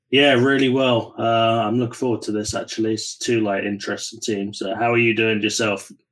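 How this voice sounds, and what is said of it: English accent. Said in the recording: “that is an English accent”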